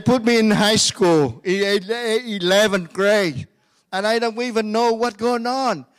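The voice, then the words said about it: Speaks English with a foreign accent. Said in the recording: “my English is excellent. with an accent. the problem that you hear with an accent, it's not my problem.”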